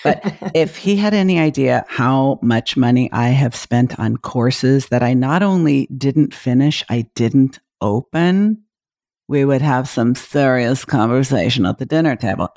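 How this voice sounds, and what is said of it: Lowered, quieter voice. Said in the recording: “I'm going to kind of lower my voice.”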